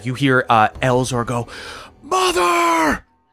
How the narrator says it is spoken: Just screams from above

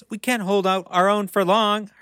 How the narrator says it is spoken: Hermione cried

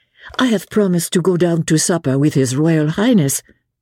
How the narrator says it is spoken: she said

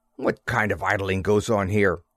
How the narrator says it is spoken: I snapped at him

